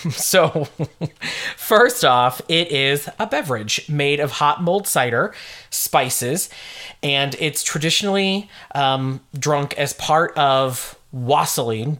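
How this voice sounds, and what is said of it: American accent. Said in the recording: “I'm butchering it with my American accent.”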